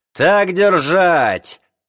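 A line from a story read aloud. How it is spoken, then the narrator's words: Angry shout. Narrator (Russian): крикнул Нечепуренко злым голосом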